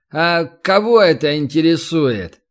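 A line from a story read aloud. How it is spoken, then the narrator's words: Lazy drawling young man. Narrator (Russian): один высокий парень, лениво растягивая слова, спросил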